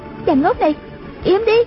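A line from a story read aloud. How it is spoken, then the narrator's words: Angry shout. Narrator (Vietnamese): Một Uyển Thanh tức quá hét lên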